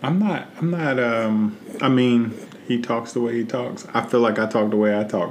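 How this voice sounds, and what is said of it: Midwestern twang accent. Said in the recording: “I'm just Midwest. I got that twang.”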